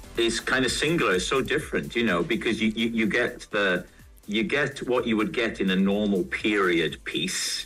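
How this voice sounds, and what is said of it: Welsh accent. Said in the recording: “The Welsh accent is actually my favourite accent.”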